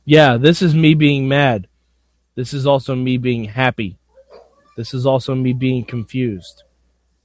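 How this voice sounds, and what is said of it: Flat, emotionless imitation of another person. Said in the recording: “my Tanner impression ... how do you not know how to emote”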